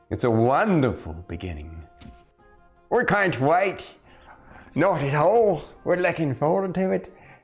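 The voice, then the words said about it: Fancy put-on accent. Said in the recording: “I'm speaking in a fancy accent”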